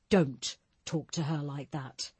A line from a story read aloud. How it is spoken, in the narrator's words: Barker said firmly